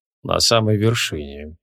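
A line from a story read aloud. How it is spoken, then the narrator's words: Barely audible whisper. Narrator (Russian): еле слышно прошептал Креол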